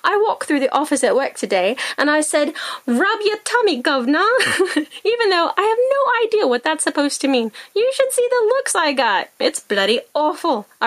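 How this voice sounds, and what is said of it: Put-on English accent. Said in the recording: “I have this English accent stuck in my noggin. I've started talking like him ... I'll knock it off with the accent”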